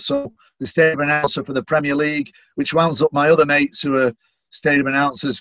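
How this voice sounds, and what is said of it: Manchester English accent. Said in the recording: “I'm very proud of my Manchester accent”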